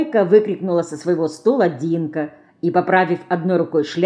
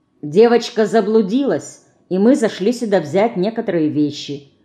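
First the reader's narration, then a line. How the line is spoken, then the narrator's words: Calm confirmation. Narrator (Russian): спокойно подтвердил Костя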